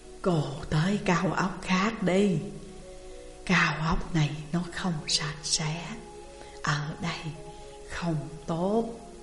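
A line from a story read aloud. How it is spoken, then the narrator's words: Soft near-whisper. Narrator (Vietnamese): rất nhẹ nhàng, gần như đang nói thầm một câu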